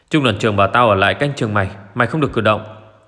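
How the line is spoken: Guard barking. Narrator (Vietnamese): tên vệ binh quát

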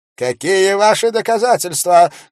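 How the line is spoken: Preacher shouting. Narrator (Russian): крикнул проповедник

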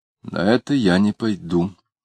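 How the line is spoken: Forced calm reply. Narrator (Russian): ответил Самгин спокойно, как только мог

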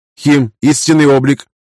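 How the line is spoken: Sharp shout. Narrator (Russian): выкрикнула Лина

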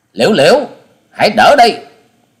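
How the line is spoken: Shout. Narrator (Vietnamese): tiếng quát

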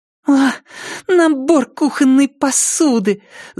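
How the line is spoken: Angry exhale. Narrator (Russian): зло выдохнула Триша

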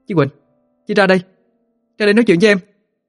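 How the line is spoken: Agitated loud call. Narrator (Vietnamese): Cô lại càng không giữ nổi bình tĩnh mà lớn tiếng gọi

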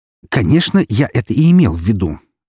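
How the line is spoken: Angry gallery owner. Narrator (Russian): зло произнес владелец галереи

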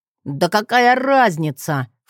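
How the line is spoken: Scoffing snort. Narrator (Russian): фыркнул Джет

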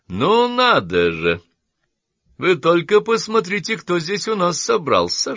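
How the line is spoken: Clownish exclamation. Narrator (Russian): шутовским тоном воскликнул Квестинг

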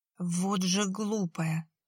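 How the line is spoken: Through gritted teeth. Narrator (Russian): процедил Борис сквозь зубы

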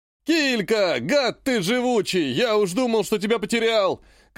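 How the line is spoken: Shouting. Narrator (Russian): кричал один из торговцев

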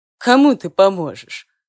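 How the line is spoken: Snorting. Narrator (Russian): фыркнул Артем

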